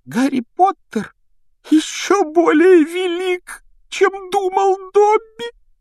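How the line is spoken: Sobbing exclamation. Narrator (Russian): воскликнул он с рыданием

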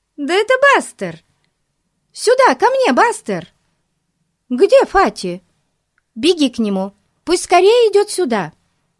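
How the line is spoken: Excited exclamation. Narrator (Russian): Бетти воскликнула

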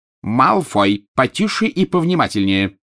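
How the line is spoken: Sharp bark. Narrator (Russian): рявкнула профессор МакГонагал

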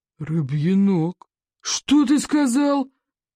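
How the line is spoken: Stunned roar. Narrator (Russian): ошалело проревел Плевака

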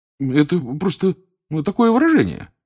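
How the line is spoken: Hurried explanation. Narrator (Russian): торопливо пояснил Рон

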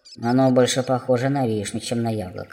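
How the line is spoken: Muttering gnome. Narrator (Russian): пробормотал гном

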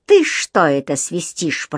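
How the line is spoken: Growled. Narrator (Russian): прорычал он

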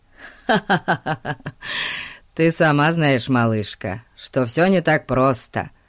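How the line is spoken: Laughing. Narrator (Russian): рассмеялся Фати

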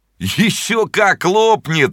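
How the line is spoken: Laughing boys. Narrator (Russian): смеялись мальчишки

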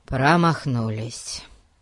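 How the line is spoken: Gloomy pronouncement. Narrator (Russian): мрачно изрек Ларри

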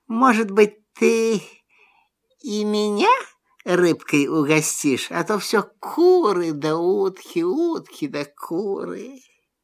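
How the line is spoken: Asked quietly. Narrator (Russian): тихо так спрашивает

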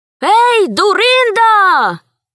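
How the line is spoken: Shout. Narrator (Russian): крикнул он

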